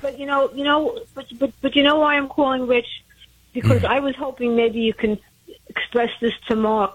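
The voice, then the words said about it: Brooklyn accent. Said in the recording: “It sounds like you're from Brooklyn.”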